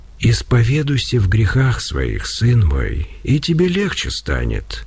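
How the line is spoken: Quiet voice. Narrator (Russian): тихим голосом произнес Серафим

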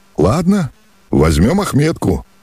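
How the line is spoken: Cheerful agreement. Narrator (Russian): весело согласился Алеша

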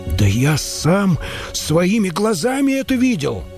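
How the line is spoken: Monk exclaiming. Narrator (Russian): воскликнул монах

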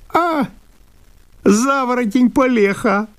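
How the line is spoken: Sudden yell. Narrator (Russian): завопил вдруг Обалдуй

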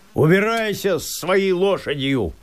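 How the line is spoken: Shouting after someone. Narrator (Russian): закричал он ему вслед

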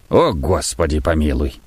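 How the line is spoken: Old man, halting, tight-lipped. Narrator (Russian): Старик и говорил так, как будто было очень холодно, с расстановками и не раскрывая как следует рта

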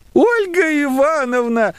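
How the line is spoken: Shrieking, breathless with excitement. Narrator (Russian): взвизгнула она, тяжело дыша от волнения

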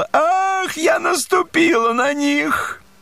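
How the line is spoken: Sudden cry. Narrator (Russian): вдруг закричала

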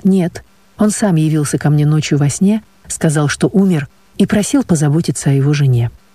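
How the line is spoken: Calm, matter-of-fact. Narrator (Russian): папа так же спокойно, будто дело идет о самой обыкновенной вещи, говорит

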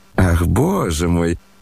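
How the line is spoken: Laughing. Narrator (Russian): рассмеялся Иван Петрович

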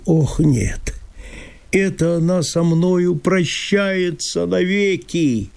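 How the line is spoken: Moaning. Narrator (Russian): простонал

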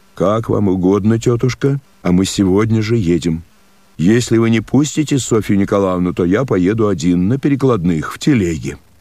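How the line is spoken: Firm voice. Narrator (Russian): твердым голосом сказал

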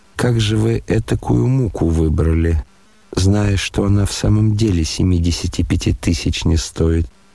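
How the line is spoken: Rather timid question. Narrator (Russian): спросил князь довольно робко

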